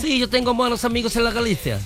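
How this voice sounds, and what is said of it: Put-on Galician accent. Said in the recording (Spanish): “¿tú siempre sabes hablar así con acento gallego?”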